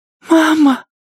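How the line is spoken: Breathless. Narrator (Russian): выдохнула Алиса

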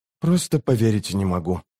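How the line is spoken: Mutter. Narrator (Russian): пробормотал юноша

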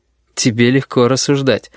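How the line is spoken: Snorting. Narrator (Russian): хмыкнул Корнелий

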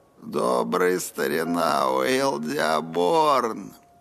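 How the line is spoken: Hoarse, cracking, unused voice. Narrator (Russian): Хриплый голос уходил то на высокие, то на низкие частоты, как бывает, если голосовые связки долго бездействовали

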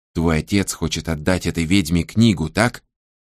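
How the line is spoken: Whispered. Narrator (Russian): прошептал он

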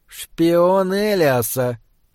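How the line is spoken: Hissing, echoed by others. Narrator (Russian): прошипел один из северных лордов, и остальные откликнулись ему эхом

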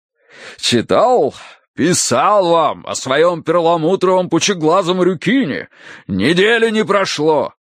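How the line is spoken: Deep bass voice. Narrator (Russian): пробасил полковник

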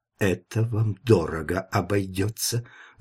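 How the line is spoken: Sinister whisper. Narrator (Russian): зловеще прошептал он

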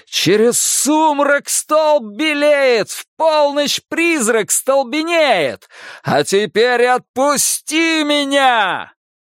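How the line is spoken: Shouting inside head. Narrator (Russian): у него в голове закричало оно

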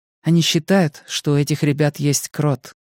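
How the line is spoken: Quiet. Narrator (Russian): тихо сказала Мия

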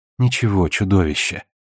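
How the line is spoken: Gentle coaxing. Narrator (Russian): ласково уговаривала она

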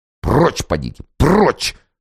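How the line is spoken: Hissing. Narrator (Russian): шипел офицерик

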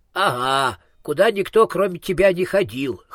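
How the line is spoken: Child's scoffing snort. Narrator (Russian): хмыкнул малыш

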